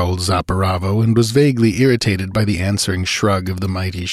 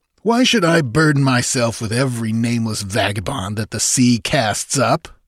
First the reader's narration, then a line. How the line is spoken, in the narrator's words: snarled Zaparavo, his look and manner more insulting than his words